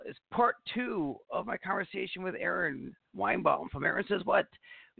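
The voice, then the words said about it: Hoarse voice. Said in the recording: “I don't know why I'm sounding hoarse today”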